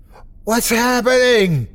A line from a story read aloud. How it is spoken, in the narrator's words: my mother screamed